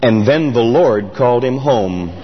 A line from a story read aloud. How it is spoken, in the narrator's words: his voice dropped about two octaves, and he said